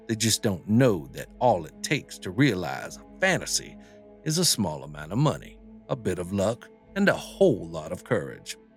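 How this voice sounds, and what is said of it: Put-on accent while reading aloud. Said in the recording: “this accent does not suit this man”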